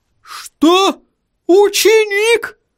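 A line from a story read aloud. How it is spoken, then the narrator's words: Astonished exclamation. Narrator (Russian): Воскликнул господин Тюльпан, и от изумления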